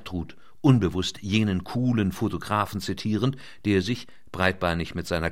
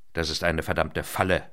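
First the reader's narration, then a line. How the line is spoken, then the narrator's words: Growling. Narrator (German): knurrte Sager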